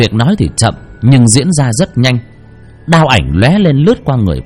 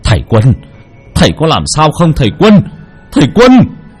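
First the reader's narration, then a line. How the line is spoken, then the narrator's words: Raised voice, alarmed. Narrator (Vietnamese): Ông nội đỡ lấy thầy Quân mà cao giọng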